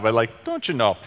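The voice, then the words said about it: Put-on Minnesota accent. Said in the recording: “I feel like that's like a Minnesota accent coming out of me somewhere somehow”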